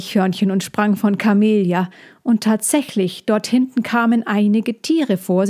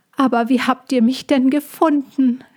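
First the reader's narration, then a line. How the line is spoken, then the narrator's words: Call. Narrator (German): rief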